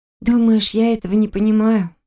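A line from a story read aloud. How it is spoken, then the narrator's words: Sad question. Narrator (Russian): Грустно поинтересовалась она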